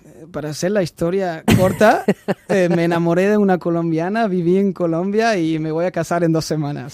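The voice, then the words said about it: German speaker with unusual Spanish accent. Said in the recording (Catalan): “tu ets alemany, no? ... Però tens un accent diferent”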